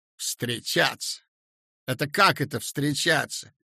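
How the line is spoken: Angry mocking. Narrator (Russian): передразнила сердито

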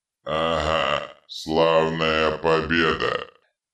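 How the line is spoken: Hateful grumble. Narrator (Russian): пробурчал Детрит, с ненавистью

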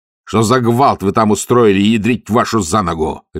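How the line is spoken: Barking. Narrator (Russian): рявкнул он

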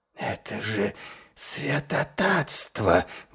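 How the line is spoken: Vampire breathing out. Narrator (Russian): выдохнул вампир

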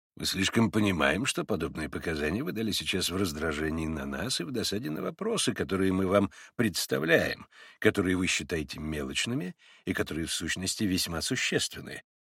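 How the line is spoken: Dry reply. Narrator (Russian): сухо проговорил ему в ответ прокурор

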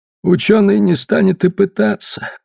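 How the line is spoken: Muffled, dull voice. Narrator (Russian): глухо сказал Лингман

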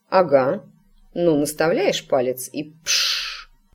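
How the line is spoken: Gloomy grumble, mother. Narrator (Russian): мрачно буркнула матушка

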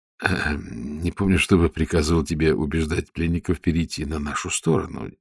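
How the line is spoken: Quiet. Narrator (Russian): тихо сказал он

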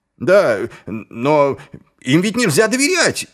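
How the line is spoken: Shouted. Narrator (Russian): выкрикнул один из нападавших

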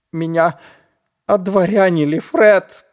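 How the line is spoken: Groaning. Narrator (Russian): простонал Шнобби

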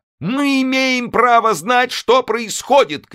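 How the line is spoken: Female shout. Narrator (Russian): крикнула она

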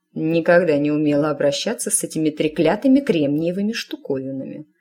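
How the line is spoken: Grumbling woman. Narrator (Russian): проворчала она

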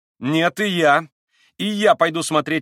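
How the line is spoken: Naive exclamation. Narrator (Russian): воскликнул Колганов, самым наивным образом

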